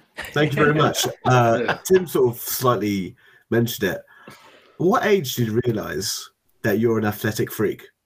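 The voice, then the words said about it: Noticeable accent. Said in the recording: “nice accent”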